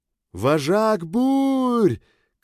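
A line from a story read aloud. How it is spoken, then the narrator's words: Shout. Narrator (Russian): крикнула Калеста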